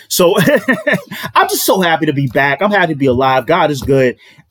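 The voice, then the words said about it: Excited, upbeat voice. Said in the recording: “you're going to hear the excitement in my voice”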